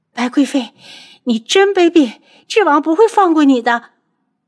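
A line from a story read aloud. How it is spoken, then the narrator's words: Crying out while collapsing. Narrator (Chinese): 楚清瑶…边倒边叫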